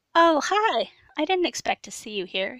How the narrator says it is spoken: he said cheerfully

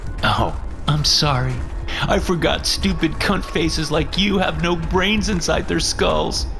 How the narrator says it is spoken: Kevin said, laughing

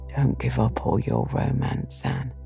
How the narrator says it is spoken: he whispered shyly

